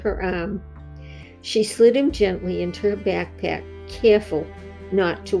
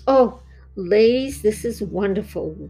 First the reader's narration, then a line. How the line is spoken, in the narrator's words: Wendy cried, tears moistening her eyes